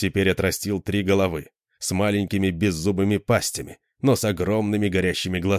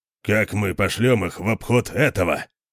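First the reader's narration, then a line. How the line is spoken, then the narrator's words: Grumble. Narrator (Russian): проворчал Конан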